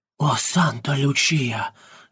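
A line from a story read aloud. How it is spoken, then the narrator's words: Entranced whisper. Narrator (Russian): шептал, не в силах оторваться от них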